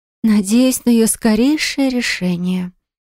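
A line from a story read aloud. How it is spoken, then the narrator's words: Deadly, icy tone. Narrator (Russian): проговорила она убийственным тоном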